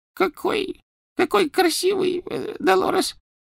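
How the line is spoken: Babbling. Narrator (Russian): пролепетала она

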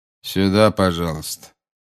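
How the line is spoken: Bored. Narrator (Russian): сказал дежурный скучающим голосом

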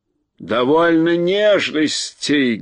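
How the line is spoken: Rough shout. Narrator (Russian): грубо закричал Урфин-Джуз

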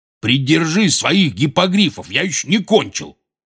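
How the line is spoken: Barking. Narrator (Russian): рявкнул Хагрид

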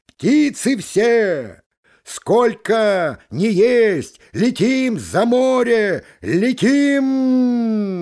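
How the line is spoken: Gander shouting. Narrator (Russian): гусак крикнул

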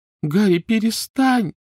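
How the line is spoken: Pleading. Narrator (Russian): взмолилась Гермиона

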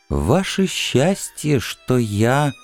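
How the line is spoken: Whispered. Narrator (Russian): Ю шепотом

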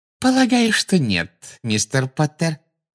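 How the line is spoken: Sugary sweet voice. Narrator (Russian): сладким голосом проговорила Амбридж

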